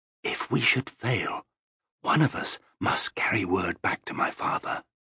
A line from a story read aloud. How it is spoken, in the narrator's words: Kasumi said very quietly in the Sirani language